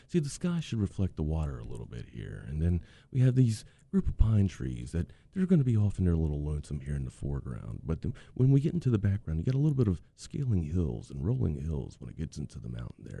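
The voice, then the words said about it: Accurate Bob Ross impression. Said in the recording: “Bob Ross ... Is that how he sounds, Sam? ... Oh, yeah. That's pretty accurate, bro. ... You're good at impersonations.”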